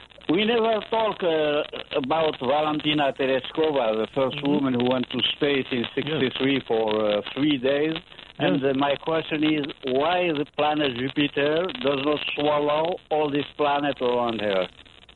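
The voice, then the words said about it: Foreign accent in English. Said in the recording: “Maybe my accent, too.”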